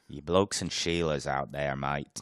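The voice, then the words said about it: Poor put-on Australian accent. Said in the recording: “We really got to work on that Australian one. I'm horrible with it. I'm terrible with it.”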